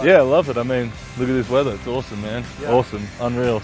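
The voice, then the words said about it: Speaks with a foreign accent. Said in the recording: “You used to be the only one around here with an accent”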